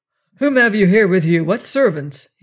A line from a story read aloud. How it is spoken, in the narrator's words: demanded sharply